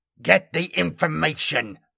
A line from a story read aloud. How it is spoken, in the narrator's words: I snarled